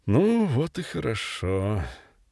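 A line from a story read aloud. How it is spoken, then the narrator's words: Quiet, relieved. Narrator (Russian): Чередниченко сказал вслух негромко с облегчением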